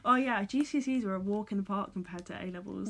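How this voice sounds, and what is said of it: English accent. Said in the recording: “We're from England, by the way. If you couldn't tell by the accent.”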